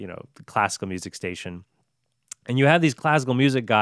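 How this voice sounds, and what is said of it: Usual voice. Nothing is said of it.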